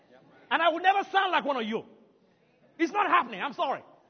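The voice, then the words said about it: African-accented English. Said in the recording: “they will hear an accent... I'm not an American... I'm an African for a reason. I don't want to change my accent.”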